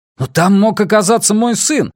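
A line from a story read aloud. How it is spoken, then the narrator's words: Yelling. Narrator (Russian): завопил Рекс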